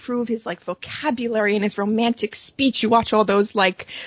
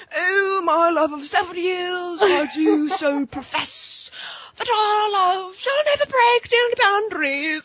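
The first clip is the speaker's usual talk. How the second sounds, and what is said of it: Put-on dramatic British accent. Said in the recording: “He's doing like a full ass British accent. ... Oh my god, that was good. I think that was better than his.”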